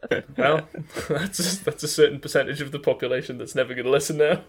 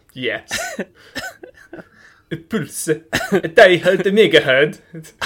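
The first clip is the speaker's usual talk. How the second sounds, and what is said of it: Put-on accent. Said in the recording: “You just say it with an accent.”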